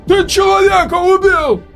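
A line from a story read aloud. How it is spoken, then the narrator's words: Frightened shout. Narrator (Russian): кричал испуганный Роук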